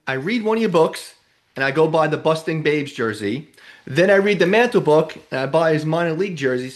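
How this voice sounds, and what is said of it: New York accent. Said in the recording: “Love the accent. I remember it's like being at home again. When I talk to people from New York”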